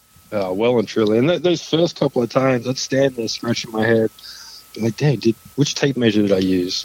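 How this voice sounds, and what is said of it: Australian accent. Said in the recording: “I can't help but hear your accent... Australia, grew up just outside of Melbourne”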